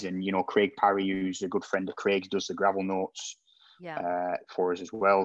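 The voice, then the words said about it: Strong regional accent. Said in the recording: “I'm definitely going to miss the dulcet tones ... your accent is my favourite ... It's quite strong.”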